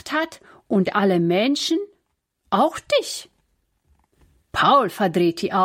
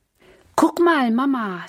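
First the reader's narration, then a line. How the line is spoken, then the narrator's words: Plain. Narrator (German): sagt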